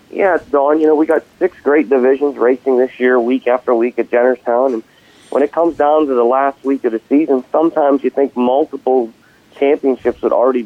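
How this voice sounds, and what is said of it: Congested, sinus-affected voice. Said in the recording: “fighting a little bit of a sinus infection, so I apologize for my voice”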